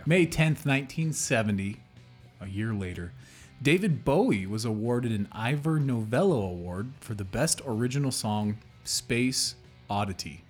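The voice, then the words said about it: Midwestern American accent. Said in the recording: “these weird little dialects... my Midwestern accent”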